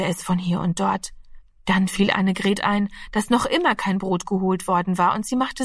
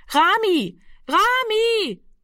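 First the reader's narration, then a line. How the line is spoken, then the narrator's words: Repeated calling into darkness. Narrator (German): rief sie fortgesetzt in die Dunkelheit hinein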